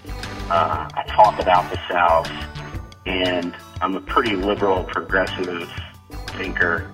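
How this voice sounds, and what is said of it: Slight Southern US accent. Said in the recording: “I'm a Southerner, got a little bit of a Southern accent.”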